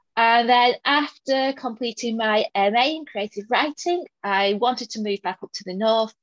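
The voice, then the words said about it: Northern English Lancashire accent. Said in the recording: “I still sound reasonably northern, reasonably Lancastrian”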